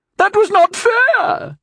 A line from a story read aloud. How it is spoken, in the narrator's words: he howled